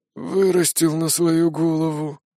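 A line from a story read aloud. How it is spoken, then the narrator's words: Displeased grumble. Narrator (Russian): недовольно пробурчал мастер Мирам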